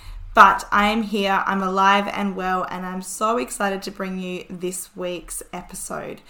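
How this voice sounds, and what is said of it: Raspy, nearly lost voice. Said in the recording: “I almost completely lost my voice. So I still sound really raspy”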